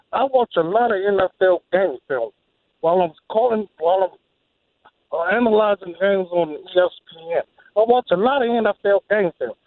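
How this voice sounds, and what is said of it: John Gruden impression. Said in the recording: “my best John Gruden impersonation.”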